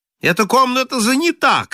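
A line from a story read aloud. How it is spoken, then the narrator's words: Shout. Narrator (Russian): крикнул Холл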